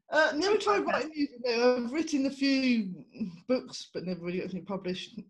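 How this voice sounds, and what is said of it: English accent. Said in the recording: “You have a beautiful English accent. I love the English accent”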